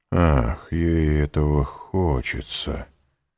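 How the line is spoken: Ominous tone. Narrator (Russian): сказал Вильфор зловещим тоном

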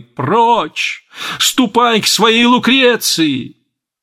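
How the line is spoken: Angry shout. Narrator (Russian): герцогиня закричала со злобой

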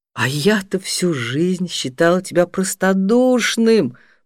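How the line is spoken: Near moan. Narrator (Russian): почти застонала Нора

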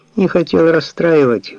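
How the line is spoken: Sighing. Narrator (Russian): вздохнул Джордж

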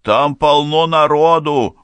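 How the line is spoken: Shout. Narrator (Russian): выкрикнул

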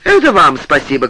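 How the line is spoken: Shouting. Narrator (Russian): кричал Павел Павлович

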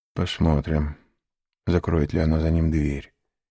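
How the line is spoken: Muttered. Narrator (Russian): пробормотал он

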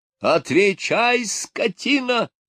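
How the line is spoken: Roared. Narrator (Russian): взревел управляющий

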